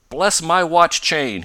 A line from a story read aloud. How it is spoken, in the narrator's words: he suddenly cried